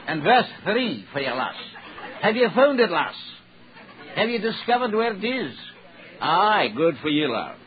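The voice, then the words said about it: Put-on Scottish accent. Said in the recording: “if I was Scottish, let me speak with an accent”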